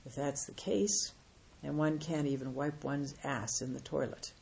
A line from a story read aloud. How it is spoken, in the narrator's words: The master replied calmly